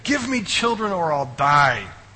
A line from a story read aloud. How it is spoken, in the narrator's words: She pleaded with Jacob